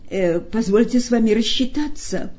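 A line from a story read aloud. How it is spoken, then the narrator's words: Crushed whimpering. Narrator (Russian): проскулил убитый Степа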